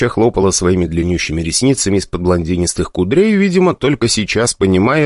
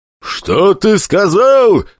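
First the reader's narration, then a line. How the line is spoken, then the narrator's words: Roaring. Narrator (Russian): взревел Пападос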